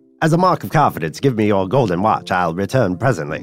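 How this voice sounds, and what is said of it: Put-on transatlantic accent. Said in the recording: “I'm picturing a transatlantic voice ... No more accents”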